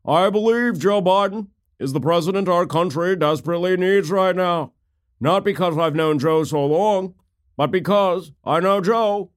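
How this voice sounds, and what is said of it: Imitates another person's voice. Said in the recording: “I do a fairly good John Kerry impersonation”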